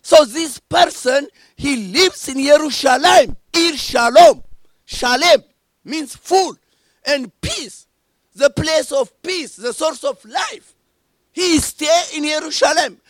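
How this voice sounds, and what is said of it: Foreign accent, hard to follow. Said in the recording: “despite my accent is a little bit difficult for you”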